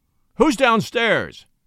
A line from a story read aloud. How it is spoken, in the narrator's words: roared Henry